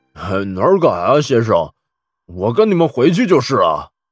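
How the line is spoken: Old man, slight smile. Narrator (Chinese): 老者微微一笑

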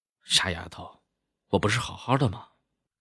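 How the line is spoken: Quiet sigh. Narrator (Chinese): 忍不住暗叹了口气

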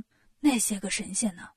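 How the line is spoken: Plain. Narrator (Chinese): 悟空说

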